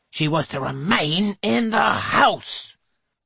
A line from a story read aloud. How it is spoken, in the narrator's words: thunders Mrs